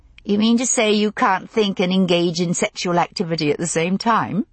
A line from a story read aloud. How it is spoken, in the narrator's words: I asked, laughing